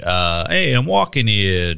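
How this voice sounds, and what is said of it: Put-on New York accent. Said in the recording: “New York accent ... Is it a Boston accent? ... No, it's a New York accent ... I'm no fucking accent guy. Pretty sure it's a New York accent.”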